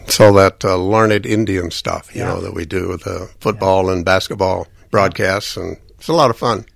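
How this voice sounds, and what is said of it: Polished radio announcer voice. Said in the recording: “radio voice”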